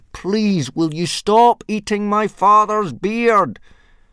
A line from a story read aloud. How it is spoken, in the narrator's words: Hiccup yelled as loudly as he could